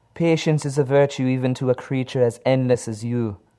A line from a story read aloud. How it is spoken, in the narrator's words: Kalila speaks with a strong accent, her voice as womanly as her form